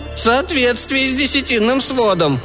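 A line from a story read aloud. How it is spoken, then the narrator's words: Breathed out. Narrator (Russian): выдохнул Кадил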